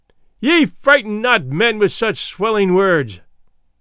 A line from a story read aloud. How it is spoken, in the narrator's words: he cried out